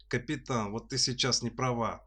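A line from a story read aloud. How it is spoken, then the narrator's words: Grumbled. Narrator (Russian): проворчал Хрим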